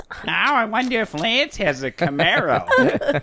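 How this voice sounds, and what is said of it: Bad put-on Jersey girl accent. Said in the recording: “Jersey girl ... Accent is terrible.”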